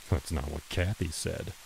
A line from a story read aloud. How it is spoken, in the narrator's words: he muttered